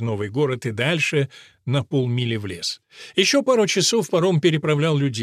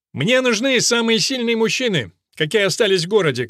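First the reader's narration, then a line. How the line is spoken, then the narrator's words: Shouting. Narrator (Russian): крикнул Мерфин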